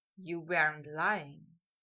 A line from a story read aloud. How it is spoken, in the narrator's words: Malfoy whispered